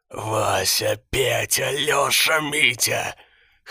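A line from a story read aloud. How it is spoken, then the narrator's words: Hoarse. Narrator (Russian): хрипел он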